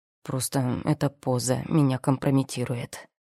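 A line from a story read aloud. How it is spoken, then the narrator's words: Displeased mutter. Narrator (Russian): недовольно буркнул Рон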